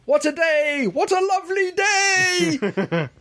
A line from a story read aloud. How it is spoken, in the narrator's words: shouting